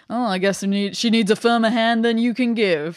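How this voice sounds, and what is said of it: Impression of Shredder. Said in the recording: “good Shredder impression”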